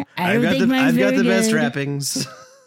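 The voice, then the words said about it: Donald Trump impression. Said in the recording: “Everybody has a Trump impression... I don't think mine's very good, but I do enjoy doing it. And when anybody catches on, they know exactly what I'm doing.”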